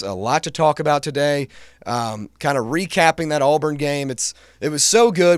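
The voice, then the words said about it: Raspy, congested voice. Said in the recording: “my voice is a little raspy, a little congested”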